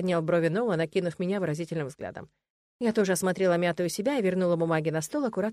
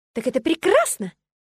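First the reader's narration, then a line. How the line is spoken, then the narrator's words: Exclaiming. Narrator (Russian): воскликнула я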